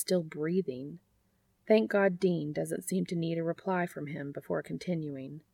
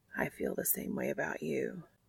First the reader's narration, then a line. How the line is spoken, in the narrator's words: Castiel whispers, finally gaining enough control over his voice to speak